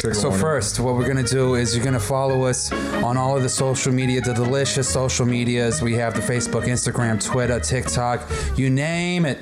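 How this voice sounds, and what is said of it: Put-on New York Jewish accent. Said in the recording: “I'm going to do it in a, I think this is like a New York Jewish style voice.”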